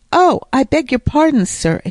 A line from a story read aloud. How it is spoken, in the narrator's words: exclaimed Mr